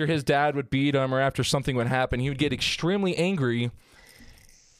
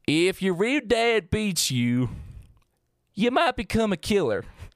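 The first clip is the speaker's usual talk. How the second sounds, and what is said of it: Put-on country accent. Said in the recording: “Let's see if I can do a country accent.”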